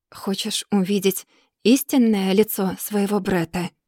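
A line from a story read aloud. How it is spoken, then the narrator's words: Quiet, menacing. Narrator (Russian): Тихо, почти угрожающе произносит он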